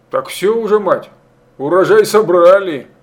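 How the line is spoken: Chuckled. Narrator (Russian): Пустовойтов хохотнул

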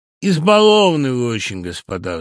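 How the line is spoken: Sighing. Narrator (Russian): вздохнул Самойленко

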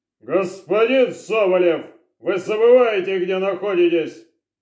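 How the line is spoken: Exasperated bark. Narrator (Russian): Не выдержав, наконец, рявкнул на следователя Орлов

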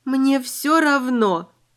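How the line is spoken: Moaning. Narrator (Russian): простонала

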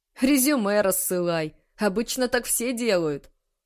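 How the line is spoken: Laughing. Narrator (Russian): засмеялся Тарас

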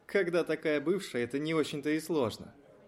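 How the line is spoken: Chuckle. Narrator (Russian): хохотнул кто-то другой

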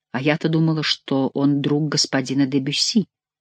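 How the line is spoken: Whisper. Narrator (Russian): прошептала она

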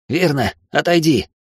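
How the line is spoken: Hoarse but steady. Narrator (Russian): Голос Родриса хоть и хриплый, но не дрожит

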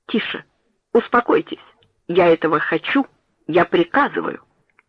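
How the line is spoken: Commanding tone. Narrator (Russian): Доктор сказал повелительным тоном

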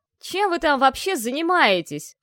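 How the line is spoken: Yelling with mounting fury. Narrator (Russian): орал Харган, с каждым словом все больше свирепея

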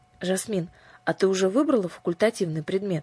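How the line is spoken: Plain. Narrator (Russian): спросила Аннушка

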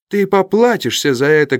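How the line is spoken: Furious shout. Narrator (Russian): крикнул Стенджерсон, побелев от гнева

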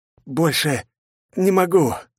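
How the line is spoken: Breathless exhale. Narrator (Russian): выдохнул Ичиро

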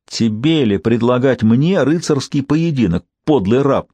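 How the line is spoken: Loud, careless exclamation. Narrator (Russian): воскликнул, совершенно не заботясь о том, будет ли услышан командующим повстанцев

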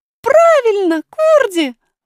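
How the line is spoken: Exclaiming. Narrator (Russian): воскликнула принцесса

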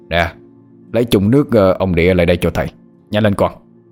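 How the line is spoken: Master shouting. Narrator (Vietnamese): Thầy quát lên

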